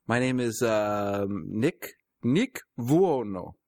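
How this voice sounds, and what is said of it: Put-on Italian accent. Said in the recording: “you have to say it with an Italian accent ... your accent just kicked in halfway through that conversation”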